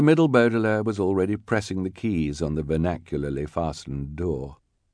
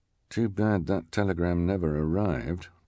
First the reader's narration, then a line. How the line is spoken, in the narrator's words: the scout said quietly